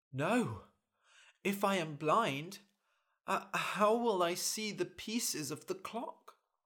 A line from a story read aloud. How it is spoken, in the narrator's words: The doctor sighed